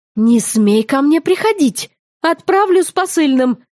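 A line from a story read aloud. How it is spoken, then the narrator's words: Snapping. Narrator (Russian): огрызнулась я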